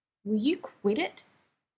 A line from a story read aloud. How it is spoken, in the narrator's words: Dean snaps, but his mouth is so full, so it comes out mushy